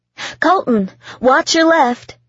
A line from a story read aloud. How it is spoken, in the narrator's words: she yelled